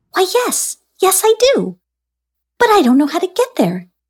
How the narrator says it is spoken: exclaimed a very tired Anoia

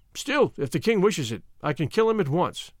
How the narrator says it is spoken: he added cheerfully

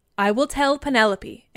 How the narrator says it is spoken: answered Odysseus

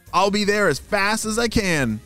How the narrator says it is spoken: shouted Ava

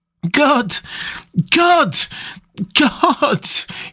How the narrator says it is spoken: cried

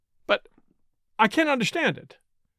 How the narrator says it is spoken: cried, bewildered

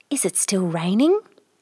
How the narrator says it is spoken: asked softly

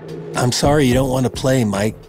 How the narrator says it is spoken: he said

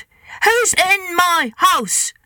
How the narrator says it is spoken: The caterpillar boomed out in a loud voice

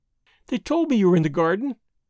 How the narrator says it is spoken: she went on, prattling merrily

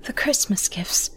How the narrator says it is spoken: murmured

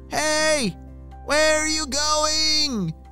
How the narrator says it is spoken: shouted Libby

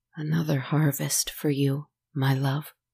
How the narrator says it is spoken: he said softly

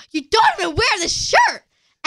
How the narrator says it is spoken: he yells at me

